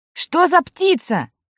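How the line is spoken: Shouted. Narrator (Russian): прокричал Сева

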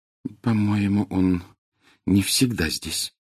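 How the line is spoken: Very quiet speech. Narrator (Russian): очень тихо сказала Гермиона

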